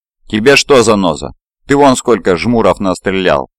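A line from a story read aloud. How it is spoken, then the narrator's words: Angry snarl. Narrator (Russian): зло оскалился салочник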